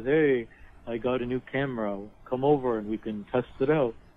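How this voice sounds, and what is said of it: Imitates another person's voice. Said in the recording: “Your Vertigo your Vertigo impression is pretty insulting”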